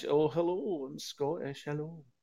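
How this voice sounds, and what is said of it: Soft, warm Scottish accent impression. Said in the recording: “Al Murray is doing his impression of the three Scottish accents ... there's the warm chamois leather on your nads, which sounds”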